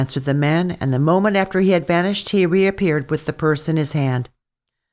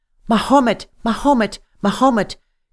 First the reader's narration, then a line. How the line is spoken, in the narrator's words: cried she with all her might